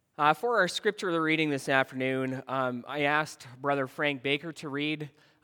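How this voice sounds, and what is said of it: Sore voice from a cold. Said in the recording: “I had a cold this past week, and my voice is a bit sore.”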